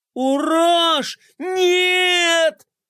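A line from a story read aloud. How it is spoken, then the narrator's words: Alarmed scream. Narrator (Russian): закричала Глория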